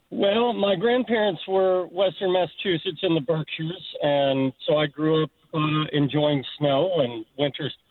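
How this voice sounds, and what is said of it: Kentucky accent. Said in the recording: “I love your accent. I hear you moved here from Kentucky.”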